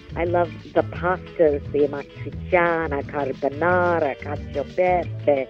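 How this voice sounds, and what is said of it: Exaggerated Italian accent on food words. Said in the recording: “She positively charmed me with her Italian accent ... I love hearing you pronounce all these words with your beautiful accent. It sounds so good ... I would rather like overdo it”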